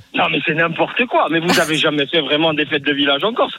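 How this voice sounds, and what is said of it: Corsican accent. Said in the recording (French): “on adore l'accent corse”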